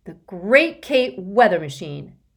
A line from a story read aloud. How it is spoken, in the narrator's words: Constance shouted